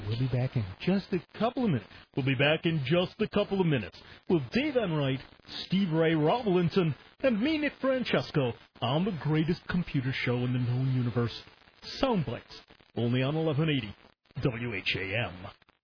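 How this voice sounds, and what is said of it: Smooth FM radio announcer voice. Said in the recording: “put on my FM voice”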